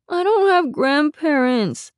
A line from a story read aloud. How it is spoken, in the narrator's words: Rainey moaned